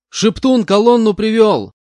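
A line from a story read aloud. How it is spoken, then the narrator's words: Shout. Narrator (Russian): крикнул я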